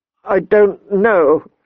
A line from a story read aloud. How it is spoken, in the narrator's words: she said tearfully